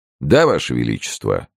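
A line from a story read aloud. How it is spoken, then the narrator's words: Serious reply. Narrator (Russian): серьезным тоном ответил капитан мушкетеров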